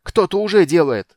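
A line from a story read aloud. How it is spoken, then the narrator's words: Barked, barely restrained. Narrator (Russian): гаркнул Танис, с трудом сдерживая себя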